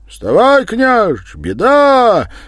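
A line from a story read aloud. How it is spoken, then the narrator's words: Urgent shout in ear. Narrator (Russian): кричал в ухо посыльный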